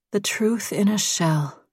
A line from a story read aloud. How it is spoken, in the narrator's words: Stevie said quietly